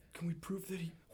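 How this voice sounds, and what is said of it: Whispering. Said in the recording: “Why are you whispering to me? ... You went right into the whisper again”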